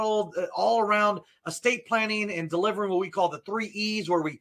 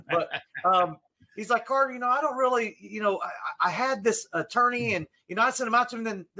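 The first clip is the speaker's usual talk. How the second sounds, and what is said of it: Imitated Southern drawl. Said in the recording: “I'm using a Southern drawl because he's got a real Southern accent.”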